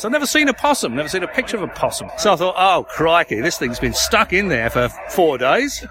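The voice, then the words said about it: English accent. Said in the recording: “I'm a pom, as you can probably tell by my voice.”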